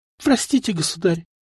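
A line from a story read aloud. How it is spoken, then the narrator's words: Tearful girl's whisper. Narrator (Russian): прошептала девчонка, глаза которой стали наполняться влагой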